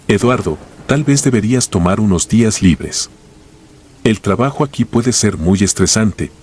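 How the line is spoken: Plain. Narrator (Spanish): me dijo

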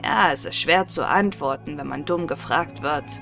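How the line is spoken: Plain. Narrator (German): sagte die Frau

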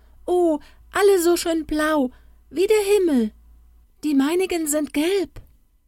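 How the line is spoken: Shouting. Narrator (German): schrie

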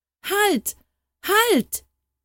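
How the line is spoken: Horrified scream. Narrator (German): schrie Harald entsetzt

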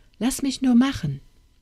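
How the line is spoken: Call. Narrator (German): rief

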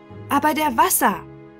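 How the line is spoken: Weak young boy calling out. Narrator (German): rief der jüngste von den drei Jungen, der Heinrich aus dem Feldhofe, ein schwächlicher, blasser Junge

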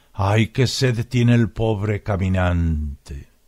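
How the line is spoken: Sad, tired, low voice. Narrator (Spanish): tenías tristes los ojos y con fatigada voz me dijiste bajo

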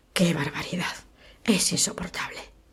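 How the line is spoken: Low embarrassed murmur. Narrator (Spanish): la señorita Criswell, que enrojeció y murmuró en voz baja

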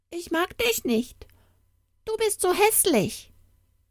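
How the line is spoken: Calling out. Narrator (German): rief

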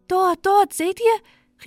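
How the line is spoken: Calling out. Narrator (German): rief Balte

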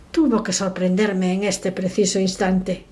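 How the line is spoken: Muttered through teeth. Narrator (Spanish): murmuró entre dientes

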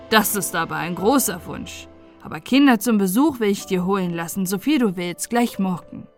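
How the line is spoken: Father laughing. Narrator (German): lachte der Vater

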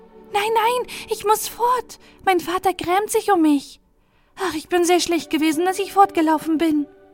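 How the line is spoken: Called out. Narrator (German): sie rief

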